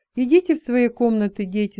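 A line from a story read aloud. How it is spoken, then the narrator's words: Calm, mother speaking. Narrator (Russian): спокойно проговорила мама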